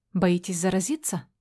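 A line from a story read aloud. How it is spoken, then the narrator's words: Quiet whisper. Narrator (Russian): Тихо шепчу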